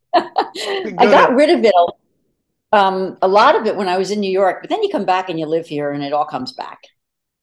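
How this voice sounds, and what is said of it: Delaware County Philadelphia-area accent. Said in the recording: “I can hear my real Delaware County thing. I can tell. ... Your accent's back.”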